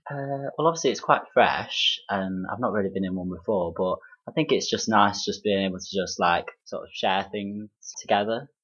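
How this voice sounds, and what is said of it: Derby English accent. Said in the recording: “your Derby accent”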